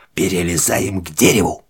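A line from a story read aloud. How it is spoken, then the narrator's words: Whispered command. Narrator (Russian): командует шепотом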